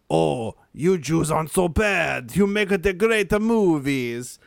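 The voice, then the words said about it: Put-on Italian accent. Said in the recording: “what accent is that? ... Italian.”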